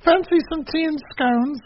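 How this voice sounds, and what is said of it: Put-on British accent. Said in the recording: “You're going to do a British accent, and this is terrible. ... Well, that's better.”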